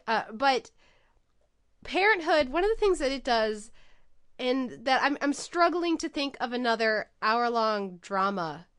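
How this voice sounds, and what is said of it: Congested voice from a cold. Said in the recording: “this cold that I'm sure you guys can all hear in my voice”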